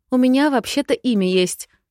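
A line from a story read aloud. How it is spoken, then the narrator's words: Snapping back. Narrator (Russian): огрызнулась я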